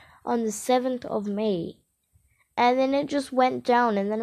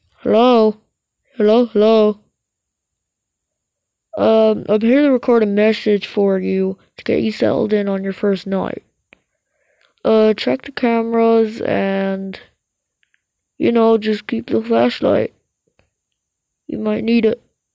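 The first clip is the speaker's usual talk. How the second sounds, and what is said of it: Phone guy character voice. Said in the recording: “my phone guy impression.”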